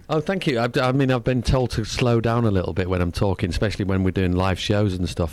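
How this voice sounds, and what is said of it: English accent. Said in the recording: “I love the accent. ... one friend who's English. And your accent's much better. ... yours is like fun.”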